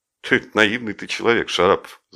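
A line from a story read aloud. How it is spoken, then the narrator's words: Laughing. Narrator (Russian): засмеялся Жеглов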